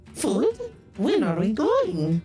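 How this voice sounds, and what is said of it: Imitates another person's voice. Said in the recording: “That's a pretty good impersonation.”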